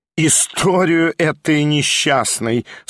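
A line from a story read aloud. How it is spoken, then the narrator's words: Drawling with spiteful laughter. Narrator (Russian): со злобным смехом протянула Прасковья Ивановна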